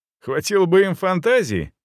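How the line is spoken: Loud deliberate laughter. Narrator (Russian): громко рассмеялся я в попытке шуметь как можно сильнее

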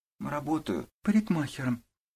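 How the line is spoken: Girl's barely audible whisper. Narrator (Russian): чуть слышно прошептала девушка

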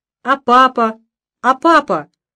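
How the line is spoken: Uncontrolled shout. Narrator (Russian): Не сдержавшись, закричал Митяй

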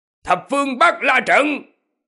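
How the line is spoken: Shouted battle cry. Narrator (Vietnamese): miệng quát

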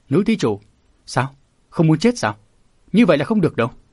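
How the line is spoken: Shouting. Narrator (Vietnamese): đầu đà nọ quát

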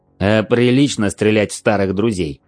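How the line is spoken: Barked. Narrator (Russian): рявкнул

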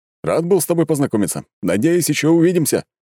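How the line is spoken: Hurried shout. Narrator (Russian): крикнул, уже торопясь

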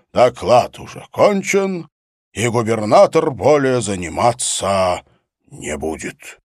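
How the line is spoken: Growling. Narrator (Russian): Лев прорычал

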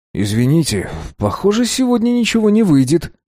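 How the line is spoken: Mumbled. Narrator (Russian): промямлил

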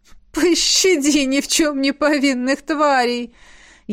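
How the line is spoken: Groan stifling laughter. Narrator (Russian): Едва сдерживая смех, простонала ректор

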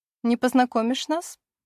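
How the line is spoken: Sarcastic question. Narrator (Russian): язвительно спрашивает

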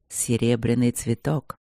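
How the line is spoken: Hoarse voice. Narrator (Russian): говорит он хрипло

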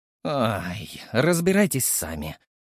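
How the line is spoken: Sighing. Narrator (Russian): вздохнул я

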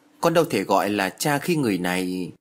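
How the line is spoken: Hesitant. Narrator (Vietnamese): Tâm ngập ngừng

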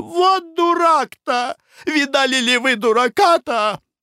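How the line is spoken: Exclaiming. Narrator (Russian): воскликнула

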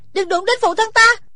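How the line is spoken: Shout. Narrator (Vietnamese): Thủy Sinh hét lên

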